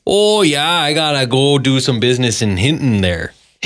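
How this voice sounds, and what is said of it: Imitated Albertan accent. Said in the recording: “I hear a familiar accent behind me ... an Albertan”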